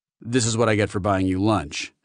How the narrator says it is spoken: Phipps said dryly

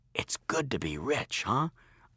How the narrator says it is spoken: I whispered to Joshua

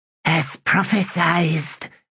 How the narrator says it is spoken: whispered Pulley

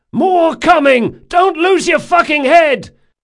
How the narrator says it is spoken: Locke shouted at him

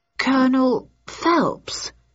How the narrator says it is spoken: I stammered

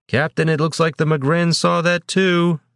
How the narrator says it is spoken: one of the spotters yelled

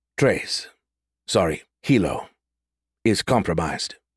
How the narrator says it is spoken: Six Wing complained in his steady tone

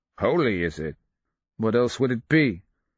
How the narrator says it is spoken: A phlegmatic snort

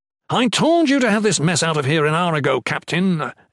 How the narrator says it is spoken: Aethon yelled grumpily

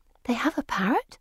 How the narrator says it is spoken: I whisper

